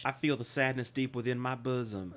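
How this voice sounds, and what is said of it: Imitates another person's voice. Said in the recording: “my Andy McDowell impression ... That's really good.”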